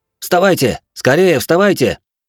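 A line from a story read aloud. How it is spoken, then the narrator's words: Young man shouting. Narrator (Russian): выкрикнул молодой шиноби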